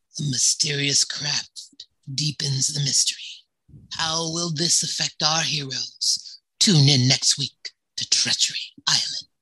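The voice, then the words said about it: Soothing announcer voice. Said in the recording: “in your announcer voice? I could use some soothing right now.”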